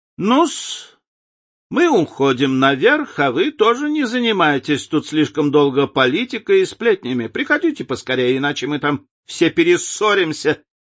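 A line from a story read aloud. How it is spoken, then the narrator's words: Shout. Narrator (Russian): крикнула леди Нарборо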